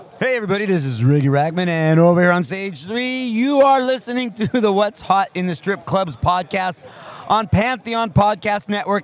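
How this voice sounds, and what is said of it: Strip club DJ voice. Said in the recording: “as a strip club DJ voice”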